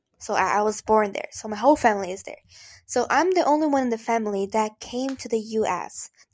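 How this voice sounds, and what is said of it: Brazilian accent. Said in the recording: “I am from Brazil. That's why the weird accent.”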